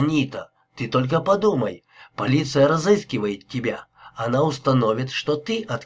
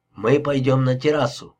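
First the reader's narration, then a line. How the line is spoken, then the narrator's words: Softly. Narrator (Russian): мягко сказал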